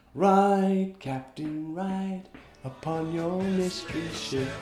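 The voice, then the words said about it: Sings a few bars, nasal voice. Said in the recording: “In my nasal voice?”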